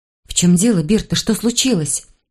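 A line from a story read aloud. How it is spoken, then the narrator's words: Gentle question. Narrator (Russian): мягко спросила я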